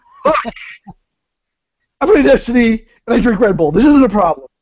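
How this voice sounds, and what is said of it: Imitates another person's voice. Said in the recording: “do it in your best Nick voice”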